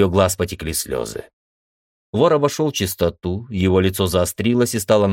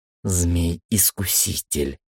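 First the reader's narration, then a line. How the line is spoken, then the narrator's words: Muttering. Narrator (Russian): пробормотала Света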